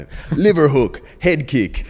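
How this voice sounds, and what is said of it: Imitated Dutch accent. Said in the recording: “He's like a Dutch guy, so he's got this accent.”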